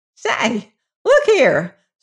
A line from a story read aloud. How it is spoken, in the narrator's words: squeaked Ben Griebler, his face dully red